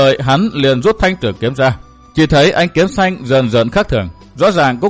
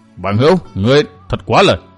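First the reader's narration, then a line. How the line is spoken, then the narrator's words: Angry, stung shout. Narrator (Vietnamese): Vô Diện kiếm khách bị nói xỏ một câu, ánh mắt run run phát giận quát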